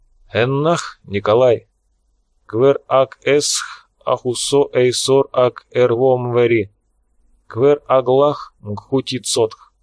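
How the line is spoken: Slow and serious. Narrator (Russian): Фрол внезапно стал очень серьезным, медленно произнес

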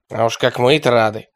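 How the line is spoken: Grumbling. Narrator (Russian): проворчал араб

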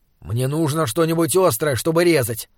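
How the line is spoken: Grumbling. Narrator (Russian): проворчал он

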